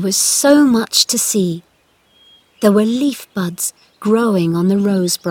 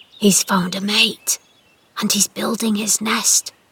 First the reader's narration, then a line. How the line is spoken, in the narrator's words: whispered